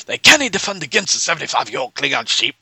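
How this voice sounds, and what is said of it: Weak attempt at Scottish accent. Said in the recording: “I couldn't do it that either ... my attempt to do a Scottish accent will do no justice”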